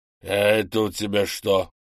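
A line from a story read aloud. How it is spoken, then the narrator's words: Man wheezing hoarsely. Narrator (Russian): опять прохрипел мужчина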